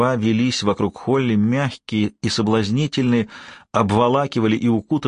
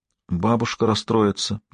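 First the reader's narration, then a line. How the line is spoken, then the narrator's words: Barely audible. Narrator (Russian): еле слышно сказала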